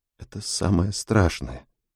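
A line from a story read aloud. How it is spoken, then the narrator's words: Barely audible woman. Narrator (Russian): едва слышно произносит она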